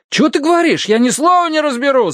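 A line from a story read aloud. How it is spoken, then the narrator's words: Yelling back. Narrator (Russian): заорал в ответ Дин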